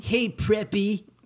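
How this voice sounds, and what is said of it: Imitates another person's voice. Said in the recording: “my impression ... it sounds exactly like Mario Lopez”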